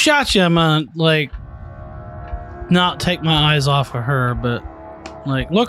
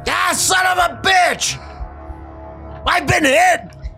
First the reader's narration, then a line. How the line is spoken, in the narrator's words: you hear Schmidt yell